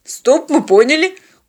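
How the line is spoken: Frightened interruption. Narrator (Russian): испуганно перебил пилот

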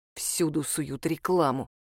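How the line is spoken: Irritated muttering. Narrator (Russian): раздраженно пробормотал Илья Васильевич

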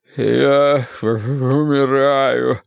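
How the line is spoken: Moaning. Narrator (Russian): стонал Уве

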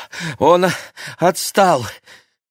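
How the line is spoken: Breathless wheeze, boy. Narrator (Russian): тяжело дыша просипел мальчик

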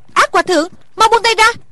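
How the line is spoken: Frightened cry. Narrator (Vietnamese): Thủy Sinh cả sợ kêu lên

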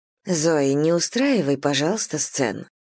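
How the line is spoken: Quiet. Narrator (Russian): тихо произносит ее мать

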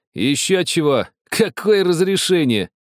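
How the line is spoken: Snorting. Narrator (Russian): хмыкнул Герман

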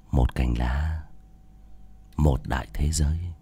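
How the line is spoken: Whisper in ear. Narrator (Vietnamese): Bác cổ chỉ thì thầm vào tai của Nữ Mẫu

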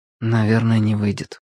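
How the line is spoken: Quiet. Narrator (Russian): тихо сказал Владик

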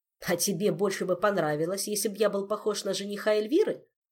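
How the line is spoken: Snapped back. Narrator (Russian): огрызнулся маэстро

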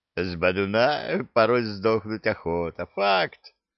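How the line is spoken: Laughing chuckle. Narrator (Russian): хохотнул Зак

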